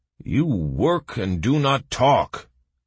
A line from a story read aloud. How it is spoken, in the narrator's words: growled the guard